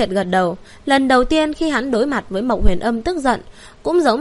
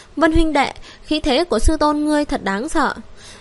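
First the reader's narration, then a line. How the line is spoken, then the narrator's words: Still frightened. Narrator (Vietnamese): lòng còn sợ hãi nói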